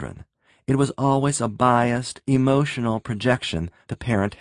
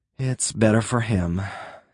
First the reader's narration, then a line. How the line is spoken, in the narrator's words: Ed murmured